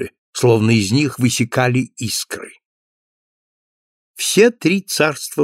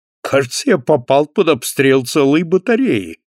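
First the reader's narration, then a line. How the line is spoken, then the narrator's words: Exclaiming. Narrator (Russian): воскликнул Альфред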